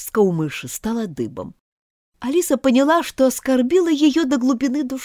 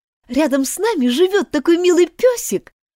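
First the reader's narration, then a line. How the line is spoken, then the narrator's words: Joyful. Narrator (Russian): радостно продолжала Алиса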